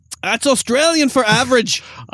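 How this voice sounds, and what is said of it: Weak Australian accent, sounds Scottish. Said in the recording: “Your accent is average. I don't know if that was Australian right there. ... That sounded more Scottish”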